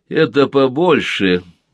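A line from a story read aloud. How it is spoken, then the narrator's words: Laughing. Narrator (Russian): рассмеялся Владимир Комаров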